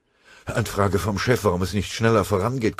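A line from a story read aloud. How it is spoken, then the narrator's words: Breathless panting. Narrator (German): keuchte der Melder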